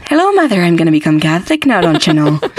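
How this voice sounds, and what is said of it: Put-on Irish accent. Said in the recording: “just start talking in an Irish accent”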